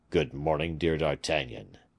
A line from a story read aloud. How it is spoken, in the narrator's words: replied the prelate coldly